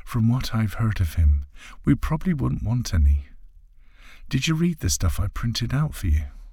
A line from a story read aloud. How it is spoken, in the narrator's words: Trixie giggles gently before saying